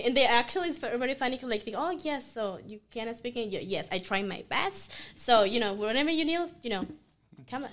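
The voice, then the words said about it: Non-native English, Sofia Vergara-like accent. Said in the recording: “my English is like, you know, I'm like Sofia Vergara English, you know, struggling”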